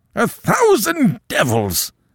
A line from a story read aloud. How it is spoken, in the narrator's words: he roared